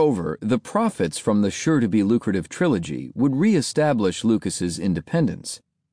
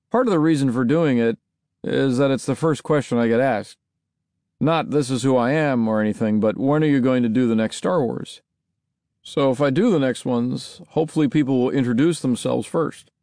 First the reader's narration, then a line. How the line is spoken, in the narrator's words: He also dryly remarked